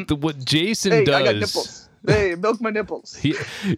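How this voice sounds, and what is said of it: Robert De Niro-style impression. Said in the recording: “impersonations of Robert De Niro ... a terrible impression”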